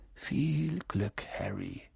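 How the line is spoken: Murmured. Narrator (German): murmelte er

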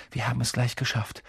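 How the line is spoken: Sudden murmur. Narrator (German): murmelt er plötzlich

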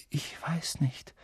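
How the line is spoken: Quiet. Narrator (German): sagte Harry leise

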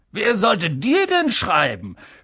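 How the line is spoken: Mocking. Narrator (German): höhnte Onkel Vernon

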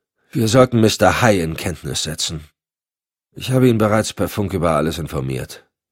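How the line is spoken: Toneless. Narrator (German): sagte Decker tonlos

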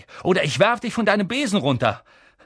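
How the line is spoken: Calling out. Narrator (German): rief Harry

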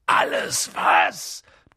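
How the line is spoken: Thundering. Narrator (German): donnerte Hagrid

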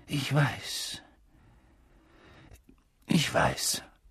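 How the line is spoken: Husky, choked voice. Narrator (German): sagte er mit belegter Stimme

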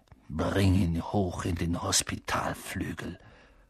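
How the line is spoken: Hissing snarl. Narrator (German): fauchte Snape Seamus an

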